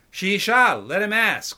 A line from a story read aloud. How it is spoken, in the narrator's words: called Sharabi in an equally loud voice